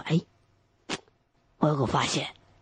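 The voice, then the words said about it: Quiet, hushed speech. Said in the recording (Chinese): “小声”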